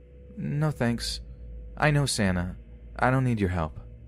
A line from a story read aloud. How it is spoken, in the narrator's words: he replies flatly